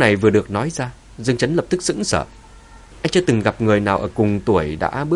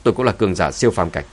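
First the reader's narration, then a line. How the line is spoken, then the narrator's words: Cold speech. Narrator (Vietnamese): Phùng Giai Di lạnh lùng nói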